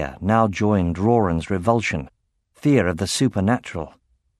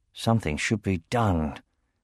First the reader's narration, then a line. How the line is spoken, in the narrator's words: he muttered